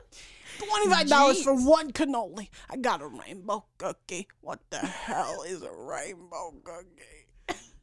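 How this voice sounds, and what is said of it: Imitates another person's voice. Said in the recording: “Now you're literally just doing a Sebastian impression.”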